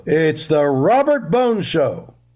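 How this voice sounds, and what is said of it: Big booming announcer voice. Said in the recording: “Do like a big announcer voice.”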